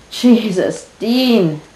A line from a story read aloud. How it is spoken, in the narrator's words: Sam gasps